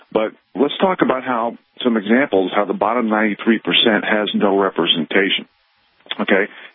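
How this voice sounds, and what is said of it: Fast, out-of-breath speech. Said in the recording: “I'm talking a little fast ... I'm still a little bit out of breath from running”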